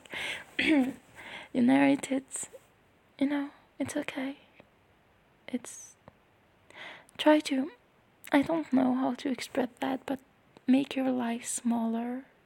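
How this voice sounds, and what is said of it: Noticeable accent. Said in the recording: “I'm sorry, the accent is back.”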